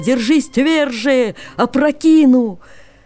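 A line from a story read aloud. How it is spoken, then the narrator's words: Horse shouting. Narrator (Russian): конь кричал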